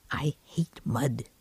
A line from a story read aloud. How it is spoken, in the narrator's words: he whispered